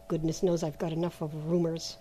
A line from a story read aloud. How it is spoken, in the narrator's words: he muttered to himself